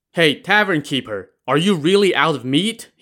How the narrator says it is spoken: shouted

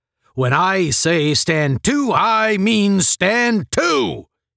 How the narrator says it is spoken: he roared

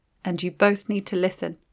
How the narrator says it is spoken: said quietly

